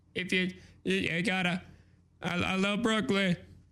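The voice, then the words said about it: Throaty imitation of another person's voice. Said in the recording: “my Jay Z impression ... He kind of talks like a little bit like this. Like it's all in his throat.”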